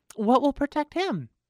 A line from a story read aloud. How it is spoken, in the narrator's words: the girl said anxiously